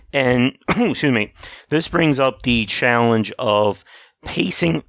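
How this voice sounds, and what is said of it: Voice giving out, cracking. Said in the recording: “my voice just went ... Your voice just dies on you like that.”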